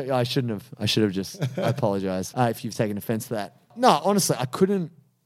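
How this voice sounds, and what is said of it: Usual voice. Nothing is said of it.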